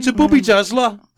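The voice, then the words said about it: Put-on Birmingham accent. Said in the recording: “You've got to say that in a Birmingham accent.”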